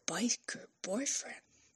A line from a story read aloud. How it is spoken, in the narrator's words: She whispered